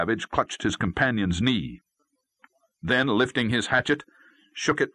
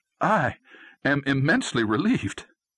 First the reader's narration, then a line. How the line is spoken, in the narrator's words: exclaimed Will